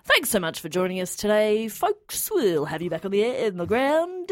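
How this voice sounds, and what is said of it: Smooth radio-announcer voice. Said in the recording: “surprisingly good like radio voice”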